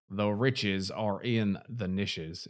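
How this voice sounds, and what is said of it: Exaggerated American accent. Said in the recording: “In my most ... American accent, I can do.”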